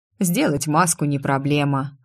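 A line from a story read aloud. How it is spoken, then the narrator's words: Snorted. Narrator (Russian): хмыкнул Айр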